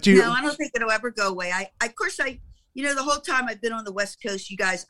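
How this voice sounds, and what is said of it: Baltimore accent. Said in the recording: “you still have that Baltimore accent. Apparently you're never going to lose that.”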